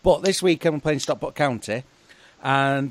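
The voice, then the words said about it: Put-on Lancashire accent. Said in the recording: “sort of like a pseudo Lancashire accent all of a sudden”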